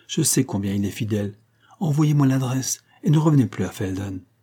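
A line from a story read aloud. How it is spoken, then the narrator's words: Softened tone. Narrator (French): dit Aurora d'un ton radouci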